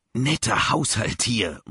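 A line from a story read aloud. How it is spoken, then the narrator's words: Murmur. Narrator (German): murmelte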